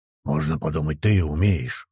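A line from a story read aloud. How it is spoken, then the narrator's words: Wolf's growl. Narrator (Russian): рыкнул волк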